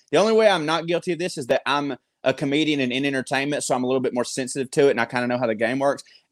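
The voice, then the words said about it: Southern US accent. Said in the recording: “a sweet, sweet Southern guy with an accent”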